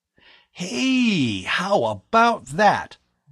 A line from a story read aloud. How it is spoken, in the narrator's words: Bud exclaimed happily